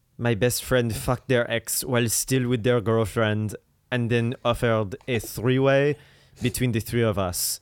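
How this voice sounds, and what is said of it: Put-on French accent. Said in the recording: “let me try to do it in my French accent.”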